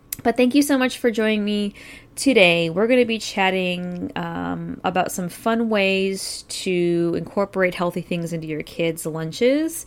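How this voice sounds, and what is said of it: Stuffy, congested voice. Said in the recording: “I'm actually battling allergies ... I sound a little stuffy”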